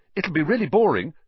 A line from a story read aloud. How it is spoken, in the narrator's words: Harry said quickly